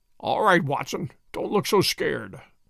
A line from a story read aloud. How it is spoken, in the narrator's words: he muttered in a very weak voice